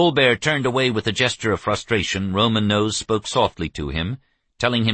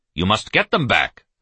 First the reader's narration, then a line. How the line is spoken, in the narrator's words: Hancock ordered harshly